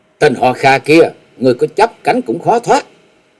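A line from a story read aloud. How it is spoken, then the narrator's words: Soft sharp shout. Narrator (Vietnamese): Nàng khẽ quát lên một tiếng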